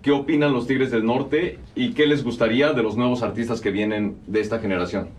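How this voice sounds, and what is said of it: Announcer-style radio voice. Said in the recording (Spanish): “ahorita sí tiene voz de locutor”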